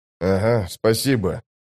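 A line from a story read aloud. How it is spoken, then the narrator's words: Confused grumble. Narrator (Russian): растерянно проворчал тот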